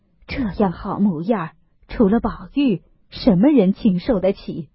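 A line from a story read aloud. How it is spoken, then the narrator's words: Old woman muttering. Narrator (Chinese): 那老婆子还只管嘴里咕咕哝哝地说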